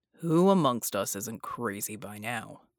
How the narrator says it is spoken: Bull muttered

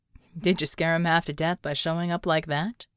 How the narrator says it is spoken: He chuckled

